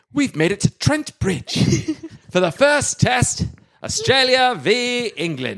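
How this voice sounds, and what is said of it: Put-on accent, commentator style. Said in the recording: “Say that in an accent.”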